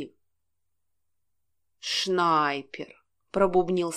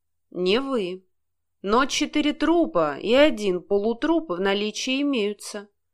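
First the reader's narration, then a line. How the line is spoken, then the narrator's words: Gloomy. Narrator (Russian): мрачно ответил тот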